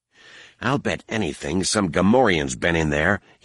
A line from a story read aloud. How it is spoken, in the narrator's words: he growled to Droma